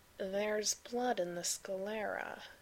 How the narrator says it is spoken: he said slowly

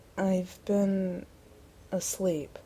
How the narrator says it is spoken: he said slowly

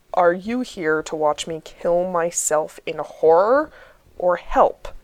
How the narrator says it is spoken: John says testily

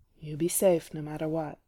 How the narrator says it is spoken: he says gruffly

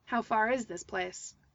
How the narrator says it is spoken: Toby asked gruffly

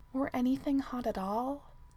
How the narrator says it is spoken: Keely murmured back

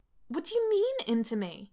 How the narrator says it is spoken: Erica yelps

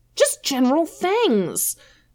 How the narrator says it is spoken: Finn shouts

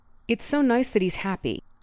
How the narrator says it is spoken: Steve said earnestly

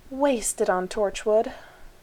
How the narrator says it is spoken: Rodney said mournfully

